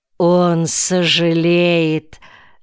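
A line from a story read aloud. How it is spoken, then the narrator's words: Mocking host. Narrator (Russian): насмешливо произнес хозяин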